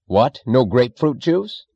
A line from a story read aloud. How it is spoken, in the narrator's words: he snapped